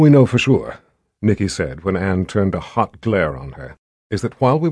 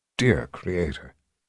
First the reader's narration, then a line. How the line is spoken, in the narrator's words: Anne whispered